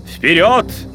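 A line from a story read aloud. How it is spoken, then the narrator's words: Shouted. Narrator (Russian): крикнул доктор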